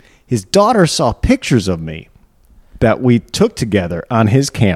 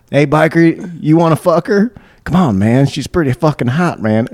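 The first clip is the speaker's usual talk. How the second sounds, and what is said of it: Put-on Southern white trash accent. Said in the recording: “he's like from Michigan, but he's got a southern accent. Like he's taking that white trash ... how did you get this accent?”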